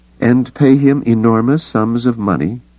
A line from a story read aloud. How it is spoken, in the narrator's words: Leia said dryly